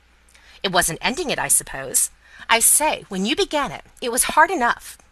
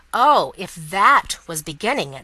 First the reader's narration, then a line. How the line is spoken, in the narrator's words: said Mr